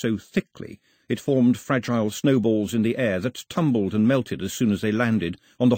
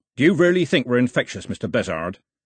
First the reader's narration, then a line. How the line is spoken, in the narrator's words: he barked to the man on the dock